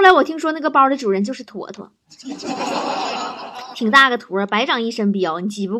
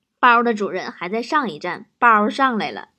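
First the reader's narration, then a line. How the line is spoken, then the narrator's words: Flat, indifferent. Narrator (Chinese): 一个人淡淡的说了一句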